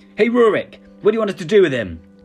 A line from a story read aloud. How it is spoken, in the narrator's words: yelled the old guard